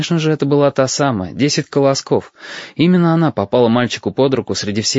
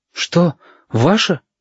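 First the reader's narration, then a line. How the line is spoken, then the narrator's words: Boy asking, almost frightened. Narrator (Russian): почти испуганно спросил мальчик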